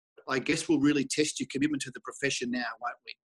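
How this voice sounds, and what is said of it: Imitated Dutch accent. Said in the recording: “I can still hear this guy's voice with this, you know, silly little Dutch accent”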